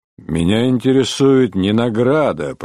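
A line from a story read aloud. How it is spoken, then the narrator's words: Grumbling. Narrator (Russian): проворчал Чирне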